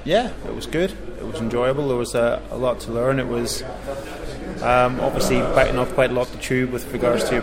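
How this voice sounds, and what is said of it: Northern Irish accent. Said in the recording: “as you can probably tell from my accent, I'm originally from Northern Ireland.”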